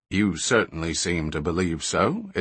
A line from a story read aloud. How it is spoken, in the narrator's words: admitted the other flatly